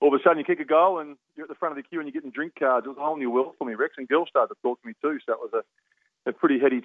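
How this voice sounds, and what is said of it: Usual voice. Nothing is said of it.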